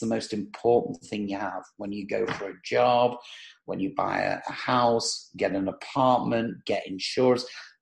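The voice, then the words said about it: Clear accent. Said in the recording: “I hope if anyone's listening, they understand my accent ... you have a very clear accent”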